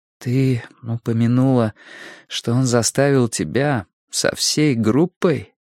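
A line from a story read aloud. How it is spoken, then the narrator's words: Quiet question. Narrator (Russian): спросила Робин тихо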